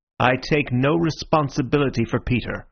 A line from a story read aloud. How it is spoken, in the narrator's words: I said